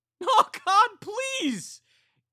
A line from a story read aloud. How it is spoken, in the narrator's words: Katie cried